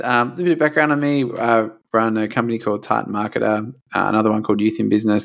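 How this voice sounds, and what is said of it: Slight Australian accent. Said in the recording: “we obviously hear a little bit of an accent ... from the end of the earth”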